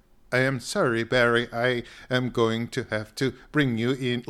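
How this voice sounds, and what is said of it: Half robot voice, Eastern European accent. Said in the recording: “the guy had a little bit of an accent, and so the way the robot talked was the robot would go ... he didn't have like a real robot voice. It was kind of halfway between robot voice and Eastern Europe.”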